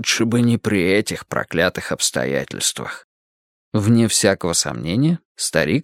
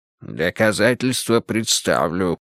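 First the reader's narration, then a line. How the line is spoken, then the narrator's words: Grim declaration. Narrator (Russian): мрачно заявил Буллин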